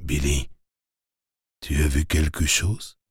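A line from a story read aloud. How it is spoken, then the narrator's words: Quiet question. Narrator (French): demandai à voix basse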